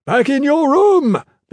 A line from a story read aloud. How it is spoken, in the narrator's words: Big Leo roared